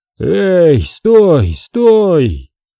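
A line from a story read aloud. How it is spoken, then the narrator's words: Hoarse, strangled, weak shout. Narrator (Russian): Крик получился хриплый, сдавленный, слабый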